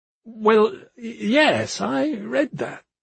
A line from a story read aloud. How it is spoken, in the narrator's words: he stammered